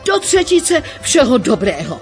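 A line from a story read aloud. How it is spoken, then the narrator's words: Cried out. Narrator (Czech): vykřikl Zajíc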